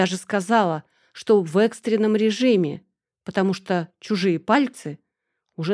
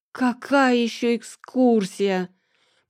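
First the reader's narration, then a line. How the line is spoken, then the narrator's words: Groggy moan after sleep. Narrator (Russian): простонала, пытаясь спешно прийти в себя после сна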